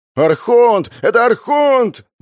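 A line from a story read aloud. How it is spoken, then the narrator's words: Crowd shouting. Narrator (Russian): закричали люди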